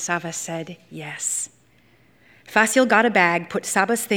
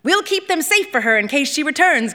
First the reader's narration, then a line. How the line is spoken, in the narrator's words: Conjit said, her voice commanding the space